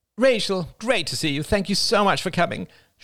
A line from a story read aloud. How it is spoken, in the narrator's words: she cried